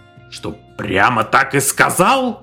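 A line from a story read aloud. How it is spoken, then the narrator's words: Roaring. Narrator (Russian): взревел шеф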